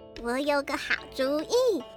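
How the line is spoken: Little mouse, laughing. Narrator (Chinese): 小老鼠笑着说

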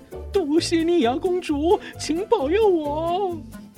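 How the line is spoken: Muttering to himself. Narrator (Chinese): 唐吉诃德喃喃自语地说

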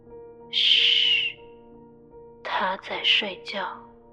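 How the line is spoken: Whispered reply. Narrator (Chinese): 用低声的气音回答

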